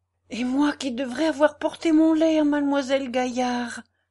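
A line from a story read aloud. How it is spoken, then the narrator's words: Exclaiming. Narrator (French): s'écria la Péchina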